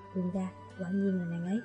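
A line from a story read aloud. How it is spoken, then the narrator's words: Quiet voice. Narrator (Vietnamese): Mạc nhiên ... nhỏ giọng nói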